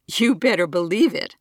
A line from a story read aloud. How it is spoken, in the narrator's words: Trevor laughs